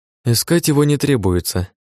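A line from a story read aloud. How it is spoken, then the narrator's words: Sigh. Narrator (Russian): вздохнула Ухара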